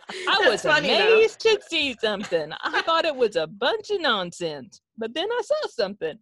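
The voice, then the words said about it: Put-on hillbilly accent. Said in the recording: “I didn't really do that in the hillbilly accent.”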